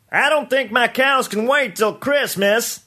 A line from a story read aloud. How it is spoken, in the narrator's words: someone called out